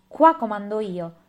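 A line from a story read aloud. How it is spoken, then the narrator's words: Shouting, pounding table. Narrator (Italian): gridava, battendo i pugni sulla tavola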